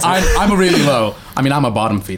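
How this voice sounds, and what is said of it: Impression of a friend's voice. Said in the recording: “your best Rory impression yet, to be fair... That was pretty good.”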